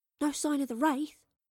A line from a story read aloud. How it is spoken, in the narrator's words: whispered Astrid